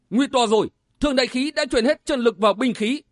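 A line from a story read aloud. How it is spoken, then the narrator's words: Startled alarmed cry. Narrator (Vietnamese): Đào Quang giật mình sửng sốt kêu lên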